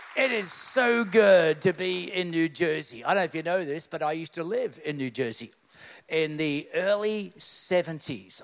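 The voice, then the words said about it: Australian accent. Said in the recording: “he doesn't sound like he spent a day in New Jersey... I'm the most Australian sounding American you're ever going to meet”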